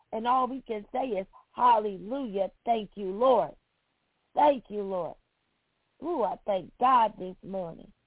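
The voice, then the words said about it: Slightly hoarse voice. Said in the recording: “I may sound a little hoarse”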